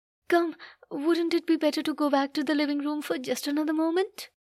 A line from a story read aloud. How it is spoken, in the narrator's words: said, although in a trembling voice and too quickly